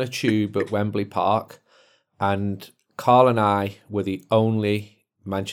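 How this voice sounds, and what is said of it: Usual voice. Nothing is said of it.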